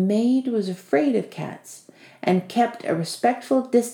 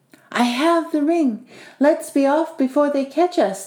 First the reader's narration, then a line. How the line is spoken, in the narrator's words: the cat exclaimed